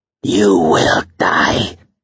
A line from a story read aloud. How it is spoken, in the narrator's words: hissed